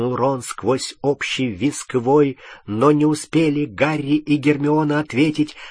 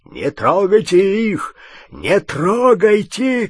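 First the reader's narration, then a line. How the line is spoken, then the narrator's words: Shouting. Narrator (Russian): кричал он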